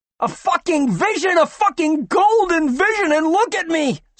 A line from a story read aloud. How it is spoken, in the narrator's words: screamed the sandy-haired man